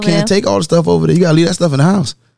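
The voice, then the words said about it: Southern US accent. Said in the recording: “I don't like your southern lingo. ... Your southern ... accent.”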